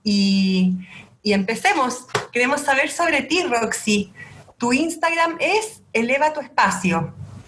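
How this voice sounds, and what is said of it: Chilean Spanish accent. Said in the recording (Spanish): “mi acento chileno”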